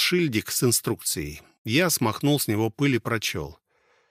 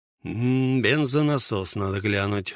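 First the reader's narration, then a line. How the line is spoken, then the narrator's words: Sighed. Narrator (Russian): вздохнул Желатин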